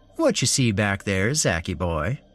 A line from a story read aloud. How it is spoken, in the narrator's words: Larry said in a playful voice